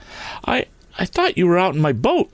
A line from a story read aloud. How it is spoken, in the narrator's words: stammered Tom